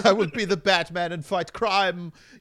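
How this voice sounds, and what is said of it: Posh upper-class put-on accent. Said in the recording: “I like that you gave him a finishing school for boys accent. ... Somebody sounds like a real fancy pants.”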